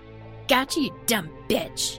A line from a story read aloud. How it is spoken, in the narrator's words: he spat in her face